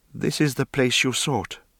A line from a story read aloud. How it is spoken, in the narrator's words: Aha said, and her voice was steady